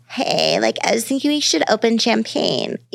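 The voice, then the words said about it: Breathy sexy baby voice. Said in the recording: “let's go back to the sexy baby ... do that voice”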